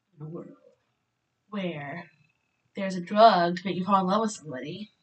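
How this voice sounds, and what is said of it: Movie trailer announcer voice. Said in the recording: “do my trail voice.”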